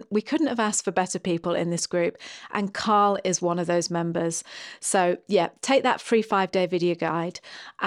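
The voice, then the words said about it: Speaks with a strong accent. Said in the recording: “in case you can't understand my accent”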